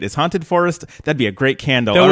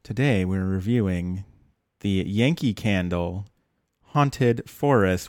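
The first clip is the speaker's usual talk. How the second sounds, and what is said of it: Mock NPR radio host voice. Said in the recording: “I will break out my best NPR voice”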